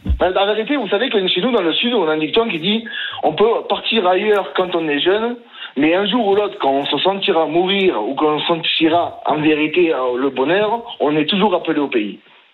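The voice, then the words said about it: Southern French accent. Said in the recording (French): “Avec ce petit accent qu'on adore ... les sudistes, on va dire, sont extrêmement fiers de leur accent”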